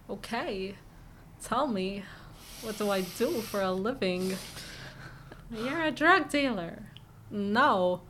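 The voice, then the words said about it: Imitates another person's voice. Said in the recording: “my Christopher Walken impression ... That was pretty good”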